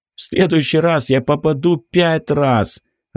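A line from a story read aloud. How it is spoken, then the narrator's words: Burst out laughing. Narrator (Russian): расхохотался Ричард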